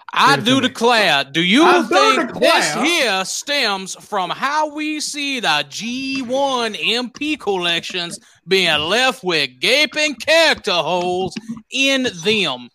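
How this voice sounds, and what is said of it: Put-on Louisiana Southern accent. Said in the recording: “I just like that Louisiana accent.”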